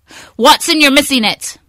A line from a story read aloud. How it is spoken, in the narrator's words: he can shout in all capital letters and without punctuation